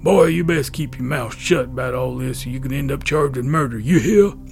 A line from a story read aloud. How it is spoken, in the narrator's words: The sheriff … in that stereotypical growl of the southern sheriff said